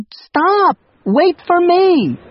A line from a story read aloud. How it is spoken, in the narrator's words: yelled